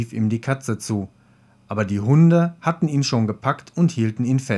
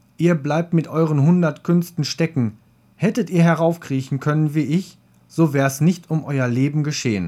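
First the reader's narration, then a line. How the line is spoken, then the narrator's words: Cat calling out. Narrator (German): rief die Katze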